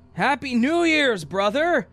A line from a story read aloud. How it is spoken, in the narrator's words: he yelled